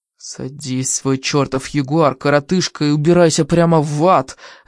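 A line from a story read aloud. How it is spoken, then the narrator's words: Growled. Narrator (Russian): зарычал Руперт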